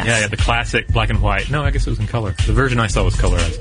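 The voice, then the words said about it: Slightly weird, mealy-mouthed speech. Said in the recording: “my voice sounds a little weird on this particular episode. I recently had some oral surgery, get some wisdom teeth out, so if I sound a little mealy mouth”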